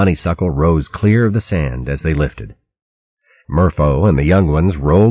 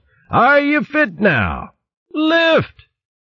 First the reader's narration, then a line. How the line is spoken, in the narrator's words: Dunespike roared out